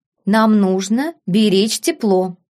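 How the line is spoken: Calm reply. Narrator (Russian): спокойно ответил герцог Аргайл

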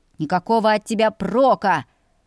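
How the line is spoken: Bark. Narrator (Russian): рявкнул Льям

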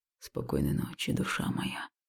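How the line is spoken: Quiet. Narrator (Russian): прозвучало тихо

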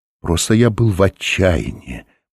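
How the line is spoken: Whispered. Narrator (Russian): прошептал Оренгароса

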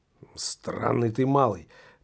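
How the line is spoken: Drunken mutter. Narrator (Russian): пробормотал колдун все больше хмелее

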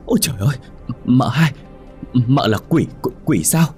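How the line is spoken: Frightened stammering. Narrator (Vietnamese): Sợ quá, Sen lắp bắp nói

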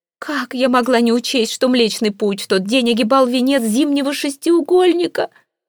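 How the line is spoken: Moaning. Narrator (Russian): Продолжала она стонать

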